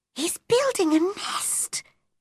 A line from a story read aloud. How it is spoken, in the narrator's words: whispered